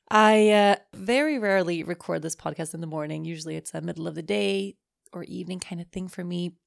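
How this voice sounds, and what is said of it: Slightly hoarse voice. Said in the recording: “my voice sounds a little hoarse”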